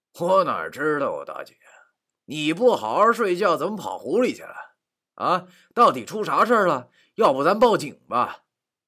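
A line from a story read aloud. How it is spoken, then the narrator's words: Feigned wry laugh. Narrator (Chinese): 我装作苦笑 对他说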